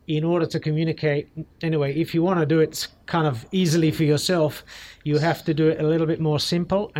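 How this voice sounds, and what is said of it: Flat accent with slight twang. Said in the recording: “they think maybe I'm South African ... maybe South Africa or Australian tinged ... I've got a little bit of a twang there because it's just a super flat accent”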